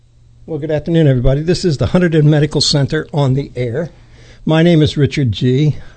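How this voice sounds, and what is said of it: Out of breath. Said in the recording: “I'm out of breath because I've been running to get here”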